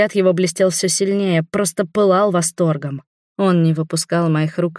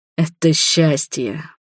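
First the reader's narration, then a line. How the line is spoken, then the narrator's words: Tender smiling whisper. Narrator (Russian): прошептал он, ласково улыбнувшись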